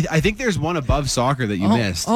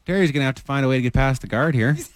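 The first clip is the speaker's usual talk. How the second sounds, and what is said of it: Put-on Canadian sports commentator accent. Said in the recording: “straight Canadian accent”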